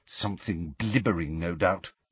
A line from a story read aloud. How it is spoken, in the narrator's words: said Hermione under her breath